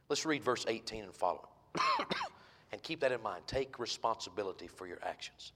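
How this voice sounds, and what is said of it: Weak, strained voice. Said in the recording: “My voice, I think, is going to hold out, I hope ... my voice is weak”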